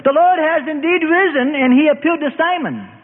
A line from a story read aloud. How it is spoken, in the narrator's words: they ran into a shout of